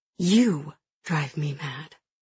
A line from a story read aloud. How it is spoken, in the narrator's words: she says quietly